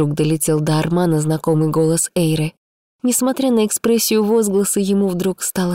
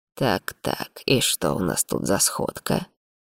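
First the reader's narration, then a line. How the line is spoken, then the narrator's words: Barely audible self-mutter. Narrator (Russian): сказал едва слышно, обращаясь к самому себе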